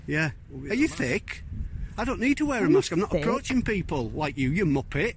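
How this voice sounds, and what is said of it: Scottish accent. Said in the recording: “That's a Scottish accent,”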